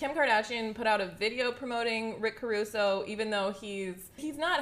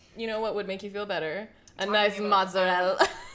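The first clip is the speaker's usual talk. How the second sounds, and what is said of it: Put-on Italian accent. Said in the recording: “I did the accent.”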